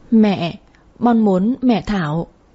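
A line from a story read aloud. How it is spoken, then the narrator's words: Child's tearful whimper. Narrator (Vietnamese): Thằng bé chiếc miệng nhỏ xinh bắt đầu mếu máo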